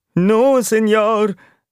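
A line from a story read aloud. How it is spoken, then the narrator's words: Whimpering rat. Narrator (German): wimmerte die Zirkusratte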